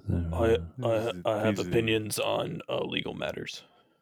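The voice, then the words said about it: Imitates another person's voice. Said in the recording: “Heiwo impersonations.”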